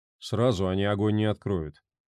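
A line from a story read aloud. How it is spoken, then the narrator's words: Good-natured grumble. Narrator (Russian): проворчал, нисколько не обидевшийся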